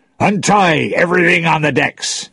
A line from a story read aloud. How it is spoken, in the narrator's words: shouted